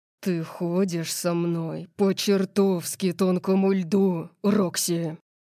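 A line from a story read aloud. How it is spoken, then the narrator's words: Growled. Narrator (Russian): прорычал он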